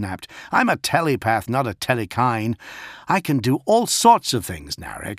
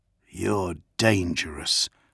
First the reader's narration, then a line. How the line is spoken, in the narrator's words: Narek whispered